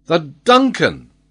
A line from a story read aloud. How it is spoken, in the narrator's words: exclaimed Glenarvan